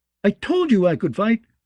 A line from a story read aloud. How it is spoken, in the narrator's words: he shouted down